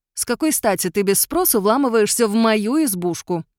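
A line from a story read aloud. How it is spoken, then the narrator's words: Growled with stress. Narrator (Russian): прорычала я, делая ударение на мою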